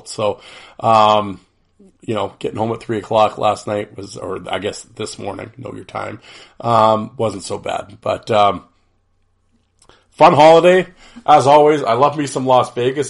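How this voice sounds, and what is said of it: Congested voice from a cold. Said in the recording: “tell by my voice, I don't have my usual smooth, silky NPR voice. ... caught a cold ... a little congestion”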